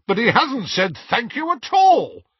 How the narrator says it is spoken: said Hestia indignantly

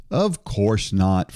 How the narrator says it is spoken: Frank said

